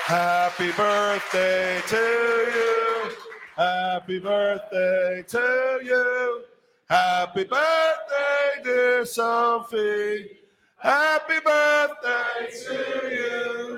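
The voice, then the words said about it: Sung in a put-on English accent. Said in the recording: “I think I sang that with an English accent.”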